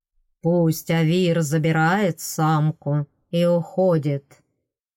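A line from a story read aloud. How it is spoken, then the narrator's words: Enchanting magical voice. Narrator (Russian): предложил главный Фейри волшебным голосом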